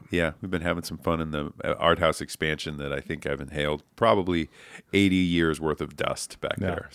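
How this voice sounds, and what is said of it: Nasal, stuffed-up voice. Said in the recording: “Got a little nasal. ... you sound a little stuffed up.”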